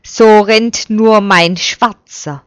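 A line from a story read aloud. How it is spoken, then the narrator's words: Called out. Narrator (German): ruft Abram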